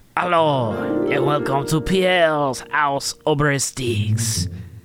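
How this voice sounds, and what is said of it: Put-on French accent. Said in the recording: “My French heart ... Pepe Le Pew ... this is... not my real accent”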